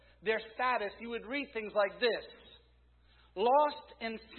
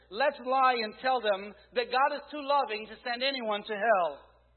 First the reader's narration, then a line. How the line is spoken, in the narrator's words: Another shouted